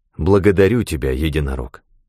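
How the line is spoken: Plain. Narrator (Russian): сказал я

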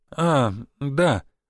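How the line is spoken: Sad sigh. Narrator (Russian): вновь печально вздохнул начальник участка

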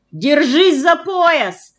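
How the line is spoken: Unafraid shout. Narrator (Russian): крикнул Фома, и я смутно почувствовал, что страх его прошел

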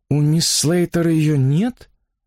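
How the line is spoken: Bewildered. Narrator (Russian): растерянно повторила миссис Эллис

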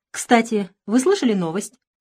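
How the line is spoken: Cheerful announcement. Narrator (Russian): весело объявил Дмитриев

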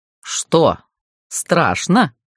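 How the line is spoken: Gleeful bark. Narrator (Russian): гаркнул Гарф, откровенно наслаждаясь растерянностью родичей

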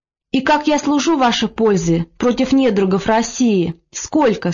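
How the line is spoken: Plain question. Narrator (Russian): спросил Яков

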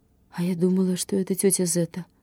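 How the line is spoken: Breathless mumble. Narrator (Russian): задыхаясь, пробормотала Лена

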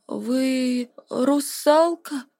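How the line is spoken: Timid question. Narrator (Russian): робко спросил кто-то с последних рядов

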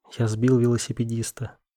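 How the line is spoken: Whisper. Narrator (Russian): прошептал

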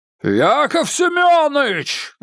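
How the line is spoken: Bellowing roar. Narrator (Russian): взревел Муромцев

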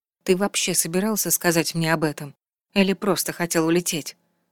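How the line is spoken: Surprisingly even, muffled. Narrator (Russian): Ее голос звучал на удивление ровно, хоть и глухо

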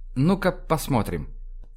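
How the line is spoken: Said quietly. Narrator (Russian): тихо сказала Аглая

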